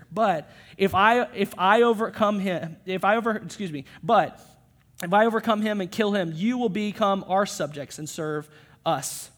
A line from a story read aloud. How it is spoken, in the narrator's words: he probably laughs here